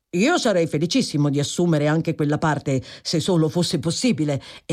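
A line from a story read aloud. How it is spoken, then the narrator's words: Exclaiming. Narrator (Italian): esclamò Tom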